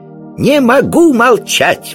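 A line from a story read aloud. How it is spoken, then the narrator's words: Exclaimed. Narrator (Russian): воскликнул колобок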